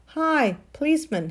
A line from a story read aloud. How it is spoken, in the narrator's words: he said